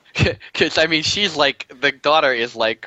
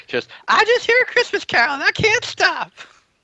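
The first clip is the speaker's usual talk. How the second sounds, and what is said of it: Imitation of the daughter's voice. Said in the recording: “that's really kind of the voice she used. I thought it was a very good impression.”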